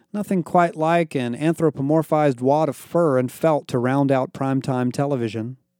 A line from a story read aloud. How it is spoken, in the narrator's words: Barrett said